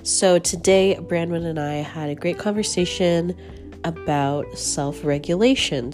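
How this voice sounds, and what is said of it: Rough, strained sick voice. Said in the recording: “my voice is a little strange because I am currently getting over the flu ... my voice is a little rough”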